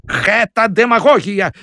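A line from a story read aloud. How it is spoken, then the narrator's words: Shout. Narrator (Belarusian): закрычаў ён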